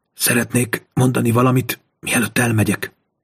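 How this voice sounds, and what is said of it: Hoarse whisper. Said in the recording (Hungarian): “Suttogta rekedten”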